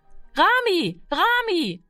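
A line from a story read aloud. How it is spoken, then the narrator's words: Called out. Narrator (German): rief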